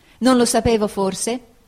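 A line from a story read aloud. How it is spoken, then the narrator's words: Exclaimed. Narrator (Italian): esclamai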